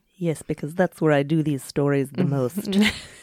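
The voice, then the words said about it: Mock Russian accent. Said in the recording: “I did that voice... Was that like a pseudo-Russian accent?”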